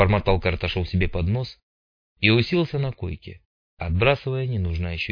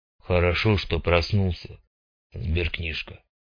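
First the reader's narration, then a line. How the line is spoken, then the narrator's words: Calm. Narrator (Russian): спокойно проговорил бородатый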